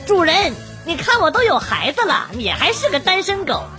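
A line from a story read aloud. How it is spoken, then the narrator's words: Shrill voice. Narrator (Chinese): 这时候我妈尖声尖气的说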